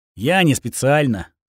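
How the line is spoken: Dry, unapologetic. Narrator (Russian): сухо ответил, уже не чувствуя своей вины

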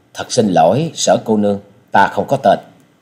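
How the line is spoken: Suddenly cold. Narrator (Vietnamese): Trần Lâm mặt bỗng trở nên lạnh lùng nói

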